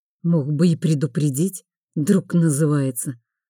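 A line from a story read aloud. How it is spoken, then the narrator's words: Good-natured grumble, prince. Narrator (Russian): беззлобно буркнул королевич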